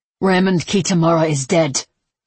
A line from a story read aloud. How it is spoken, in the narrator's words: he spat